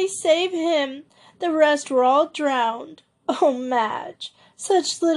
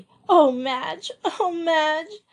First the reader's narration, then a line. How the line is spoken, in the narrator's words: sobbed Joey exhaustedly